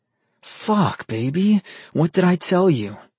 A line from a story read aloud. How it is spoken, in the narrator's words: His voice was strained